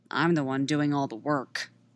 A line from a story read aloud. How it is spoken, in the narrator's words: Padme mutters